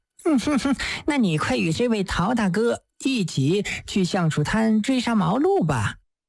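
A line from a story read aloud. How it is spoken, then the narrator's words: Giggling. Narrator (Chinese): 杜鸡眼咯咯地笑道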